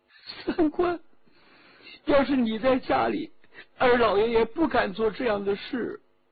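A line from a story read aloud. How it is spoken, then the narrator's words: Crying. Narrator (Chinese): 秦化哭了起来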